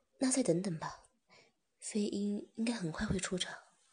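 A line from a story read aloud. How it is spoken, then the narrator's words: Sighing. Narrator (Chinese): 芝芝叹了口气，便说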